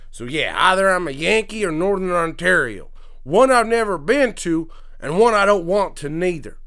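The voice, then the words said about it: Put-on country accent, drifting Australian. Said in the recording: “accent may loosely drift into Australian, possibly, because I'm not that great at accents. ... That was almost British. ... That's why I talk so funny.”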